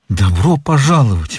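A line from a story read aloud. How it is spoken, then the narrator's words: Exclamation. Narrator (Russian): воскликнул он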